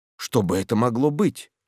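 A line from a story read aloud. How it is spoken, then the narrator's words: Whisper. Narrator (Russian): шепнул Мэтчем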